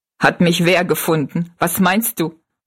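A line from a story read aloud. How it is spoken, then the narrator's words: Laughing question. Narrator (German): fragte Jinks lachend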